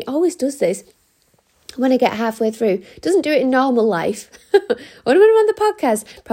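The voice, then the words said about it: Strained, failing voice. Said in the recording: “my voice is going again”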